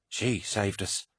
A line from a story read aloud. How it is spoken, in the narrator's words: said Kassar, his voice awed and humbled by what he had seen